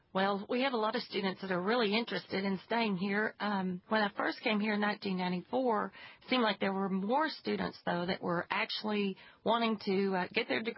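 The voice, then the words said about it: West Texas accent. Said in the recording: “I can tell the difference right away by listening to your accent, that you're from another place, not here ... That West Texas accent.”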